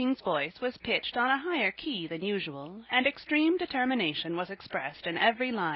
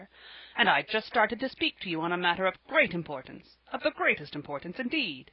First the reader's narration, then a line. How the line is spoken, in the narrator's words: he repeated irritably